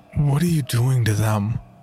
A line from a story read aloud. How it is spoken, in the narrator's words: asked, my voice trembling as I searched the cabin